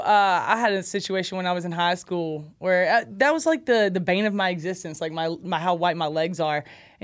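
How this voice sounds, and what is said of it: Southern American accent from Alabama. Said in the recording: “you're from ... Alabama. Because you have an accent.”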